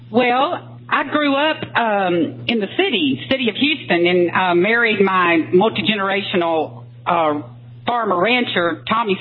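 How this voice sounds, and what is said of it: Texas twang. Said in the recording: “I can hear it... You can hear it in the Texas twang, huh?... I can hear it in the attitudinal twang. Maybe it's a Texas twang as well.”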